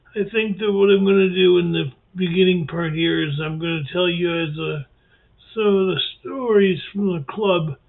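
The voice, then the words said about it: Damaged, rough-sounding voice. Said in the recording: “my voice is all screwed up”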